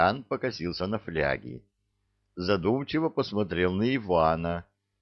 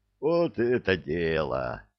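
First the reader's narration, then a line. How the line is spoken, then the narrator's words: Joyful group clamor. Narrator (Russian): радостно загомонила группа захвата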